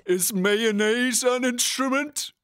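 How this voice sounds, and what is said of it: Cartoon character voice impression, Patrick Star. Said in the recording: “Just continue the episode, but in Patrick voice ... It's pretty good. It's good.”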